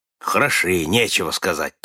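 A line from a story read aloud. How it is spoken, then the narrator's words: Grumbling. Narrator (Russian): проворчал Нед Ленд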